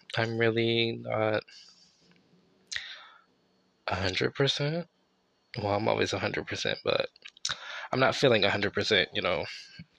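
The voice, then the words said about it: Raspy, tired voice. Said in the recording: “raspy ass voice ... Excuse my raspy voice ... I'm just really exhausted”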